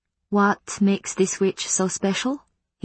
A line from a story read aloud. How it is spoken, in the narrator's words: he asked quietly